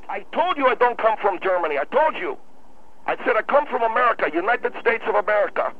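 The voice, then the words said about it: Noticeable foreign accent. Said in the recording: “you got an accent ... your accent is very noticeable ... I asked you if you come from Germany”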